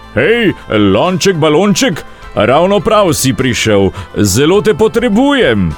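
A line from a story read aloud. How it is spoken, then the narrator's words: Calling out. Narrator (Slovenian): zaklical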